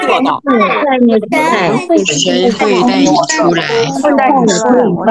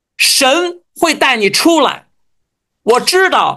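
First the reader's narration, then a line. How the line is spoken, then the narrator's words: Loud chorus. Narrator (Chinese): 让我们一起大声对他说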